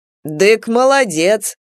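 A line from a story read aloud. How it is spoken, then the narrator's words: Mocking praise. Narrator (Russian): насмешливо похвалил Степан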